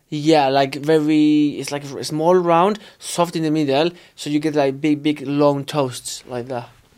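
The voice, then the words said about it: Strong Spanish accent in English. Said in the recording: “I have a very strong Spanish accent.”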